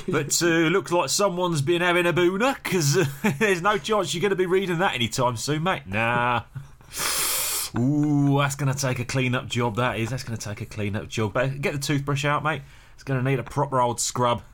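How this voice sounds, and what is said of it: Put-on cockney accent, slightly Australian. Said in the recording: “You went a bit Aussie there... Aussies are cockneys... I didn't appreciate the subtlety of your impression”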